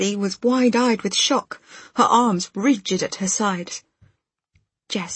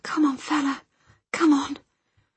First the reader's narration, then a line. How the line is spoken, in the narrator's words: murmuring